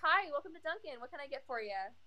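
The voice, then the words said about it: Lighter, more feminine customer-service voice. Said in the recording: “customer service voice is really funny because, like, I talk naturally like this, and I have a deeper voice ... But my customer service voice is a bit more like this ... I sound more feminine”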